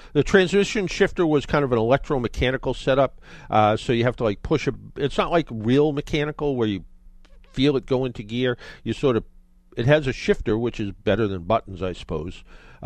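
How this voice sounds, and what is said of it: South of Boston accent. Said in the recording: “south of Boston-ish accent, whatever kind of accent I have”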